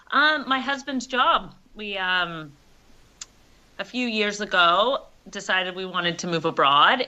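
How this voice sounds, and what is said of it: American accent. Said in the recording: “That's an American accent”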